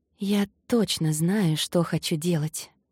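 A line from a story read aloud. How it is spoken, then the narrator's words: Whisper. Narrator (Russian): прошептала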